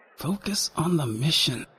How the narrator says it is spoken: I muttered

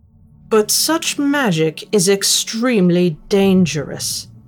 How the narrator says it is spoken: Miss Goshawk said more firmly

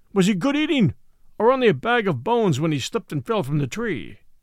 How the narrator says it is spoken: Numa growled

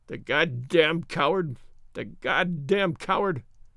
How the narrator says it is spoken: he whimpered

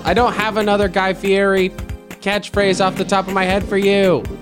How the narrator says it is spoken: I yell

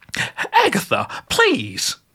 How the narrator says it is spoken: Gertrude cried

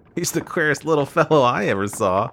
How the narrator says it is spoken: observed with a laugh

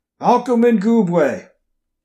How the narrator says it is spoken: Agent Calderon's voice barked through the evening air

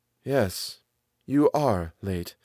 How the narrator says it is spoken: said the man quietly

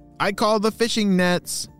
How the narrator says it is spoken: shouted Lee

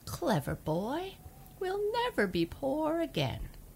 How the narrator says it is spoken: laughed

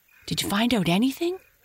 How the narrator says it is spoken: asked Happy Jack eagerly

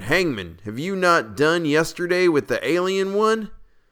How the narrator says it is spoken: we cried

